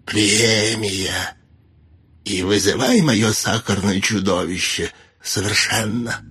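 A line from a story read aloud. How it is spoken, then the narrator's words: Tender hiss. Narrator (Russian): Некромант ласково прошипев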